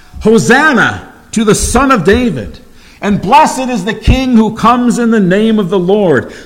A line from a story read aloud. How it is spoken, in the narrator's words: they cried out and shouted